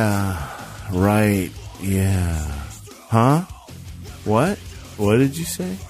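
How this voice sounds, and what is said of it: Usual voice. Nothing is said of it.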